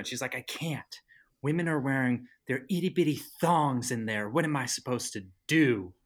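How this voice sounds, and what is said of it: Exaggerated imitation of a mother. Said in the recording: “You have like a horrible mom voice.”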